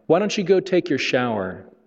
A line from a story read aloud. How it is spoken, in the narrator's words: she said